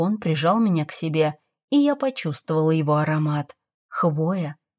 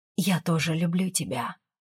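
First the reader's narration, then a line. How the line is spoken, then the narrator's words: Muffled whisper. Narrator (Russian): прошептала, уткнувшись в мужскую грудь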